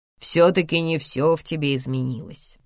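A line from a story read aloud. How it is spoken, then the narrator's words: Mocking. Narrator (Russian): насмешливо отвечает брат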